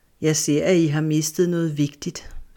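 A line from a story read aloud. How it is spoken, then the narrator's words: Calm, deer speaking. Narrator (Danish): sagde hjorten roligt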